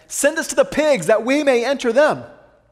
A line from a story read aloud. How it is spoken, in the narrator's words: they begged him, saying